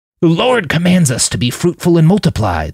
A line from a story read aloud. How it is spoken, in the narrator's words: the priest wheezed